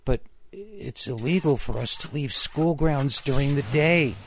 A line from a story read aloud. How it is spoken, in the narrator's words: whined